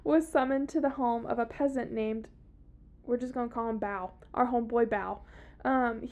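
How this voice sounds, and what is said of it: Thick Southern US accent. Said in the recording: “My very thick southern accent”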